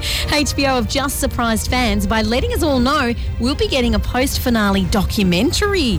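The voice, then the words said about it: Yorkshire accent. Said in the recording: “your best Jon Snow impersonation? ... I'm from Yorkshire. I am Jon Snow.”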